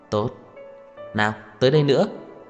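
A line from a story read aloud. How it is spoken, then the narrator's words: Smiling voice. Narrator (Vietnamese): mỉm cười nói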